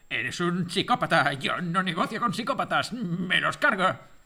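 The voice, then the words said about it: Imitates another person's voice. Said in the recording (Spanish): “la imitación de Stallone en Cobra”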